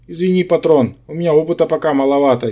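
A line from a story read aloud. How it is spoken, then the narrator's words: Apologetic grumble. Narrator (Russian): виновато пробурчал мой симбион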